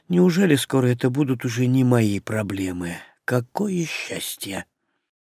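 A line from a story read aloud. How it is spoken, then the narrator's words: Muttered. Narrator (Russian): пробормотав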